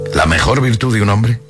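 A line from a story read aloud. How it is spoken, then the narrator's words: Plain. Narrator (Spanish): dijo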